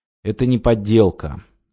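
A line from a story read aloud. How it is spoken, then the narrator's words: Gloomy. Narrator (Russian): мрачно сказал Павел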